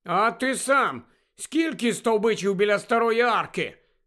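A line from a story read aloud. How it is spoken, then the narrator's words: Angry grumble. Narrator (Ukrainian): сердито буркнула вона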